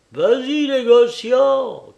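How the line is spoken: Woman shouting. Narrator (French): crie une femme

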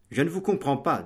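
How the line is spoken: Plain. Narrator (French): dit de Bracy

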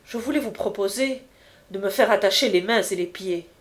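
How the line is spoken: Cold. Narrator (French): reprit froidement Jacques Collin

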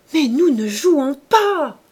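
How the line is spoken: Shouting. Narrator (French): cria Saccard

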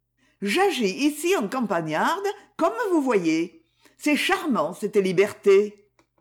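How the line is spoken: Cheerful. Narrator (French): Elle dit gaiement

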